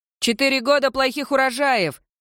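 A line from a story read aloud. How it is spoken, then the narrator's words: Shout from someone. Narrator (Russian): крикнул кто-то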